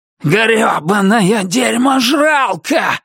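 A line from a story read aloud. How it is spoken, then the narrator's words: Yelled. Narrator (Russian): заорал Туз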